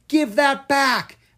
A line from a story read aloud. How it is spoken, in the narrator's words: Astrid shrieked